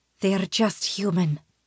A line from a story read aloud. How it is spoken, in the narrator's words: Aeliana whispers in my ear